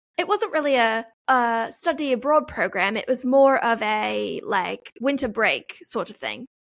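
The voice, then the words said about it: Attempted British accent sounding Australian. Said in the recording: “I feel like I'm doing Australian. Trust me, I'll work on it, and I will do a very good British accent”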